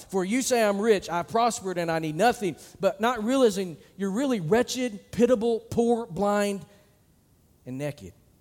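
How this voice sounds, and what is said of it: Arkansas Southern accent. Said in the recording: “that's the Arkansas accent coming out”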